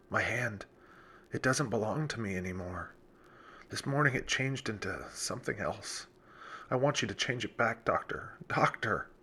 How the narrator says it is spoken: whispered Charles

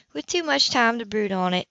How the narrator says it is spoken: she said softly

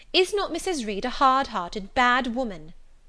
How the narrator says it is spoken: I asked impatiently

